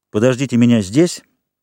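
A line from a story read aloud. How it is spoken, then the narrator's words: Plain. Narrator (Russian): сказал арматор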